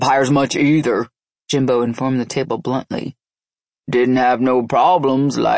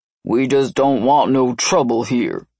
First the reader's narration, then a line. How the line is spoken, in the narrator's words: he said stiffly